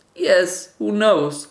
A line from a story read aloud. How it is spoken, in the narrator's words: cried the mother